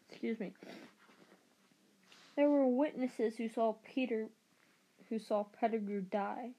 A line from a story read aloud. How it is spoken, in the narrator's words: said